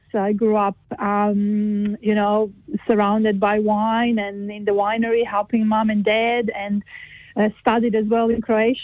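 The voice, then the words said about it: Croatian accent with slight Kiwi tinge. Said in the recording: “I notice there's an accent there as well ... Yeah, there is an accent. You can't hide that ... lived most of my life in Croatia ... I have a bit of a kind of a Kiwi accent”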